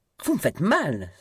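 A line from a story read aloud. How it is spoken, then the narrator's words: Exclaiming. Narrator (French): s'écria-t-elle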